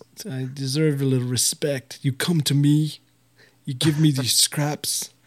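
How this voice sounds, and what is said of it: Poor Godfather-style mobster voice. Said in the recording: “that was a terrible Godfather impression.”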